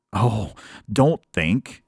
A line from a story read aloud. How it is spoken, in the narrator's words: pleaded the kangaroo